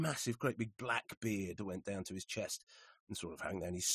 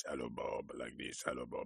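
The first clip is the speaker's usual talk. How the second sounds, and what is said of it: Imitates a very deep voice. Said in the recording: “had a very deep voice.”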